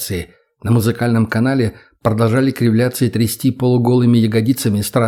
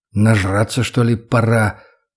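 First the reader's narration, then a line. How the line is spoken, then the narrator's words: Mutter. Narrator (Russian): пробормотал я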